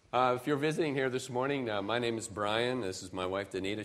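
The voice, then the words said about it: Slightly raspy, lower voice. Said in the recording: “my voice might be a little raspy or a little lower this morning”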